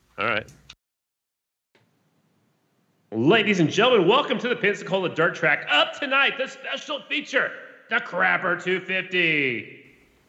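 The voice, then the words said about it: Race announcer voice. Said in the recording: “do an intro to the Crapper 250 in the Scottie Deubler announcer voice”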